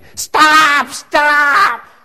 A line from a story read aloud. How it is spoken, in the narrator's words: Terry was screaming